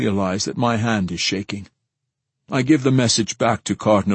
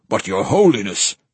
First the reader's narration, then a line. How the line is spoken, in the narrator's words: says Lord Asami, his voice urgent